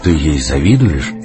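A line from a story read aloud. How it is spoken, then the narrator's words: Sighing, sad smile. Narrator (Russian): Юта вздохнула, улыбнулась грустно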